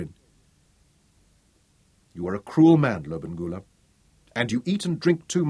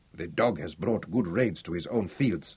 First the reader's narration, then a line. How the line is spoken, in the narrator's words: murmured Zama, Butso's lieutenant